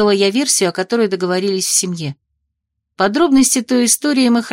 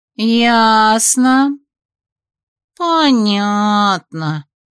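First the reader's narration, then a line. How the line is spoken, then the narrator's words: Disappointed drawl, sisters. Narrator (Russian): разочарованно протянули сестры, рассчитывавшие на более развернутый рассказ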